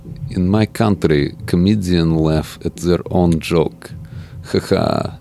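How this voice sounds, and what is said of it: Borat character voice impression. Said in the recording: “your Borat impression”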